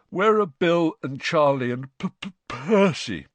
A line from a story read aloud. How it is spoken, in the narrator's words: said George, failing to stifle a huge yawn